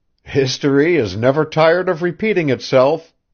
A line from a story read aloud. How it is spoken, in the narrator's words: he cried with a laugh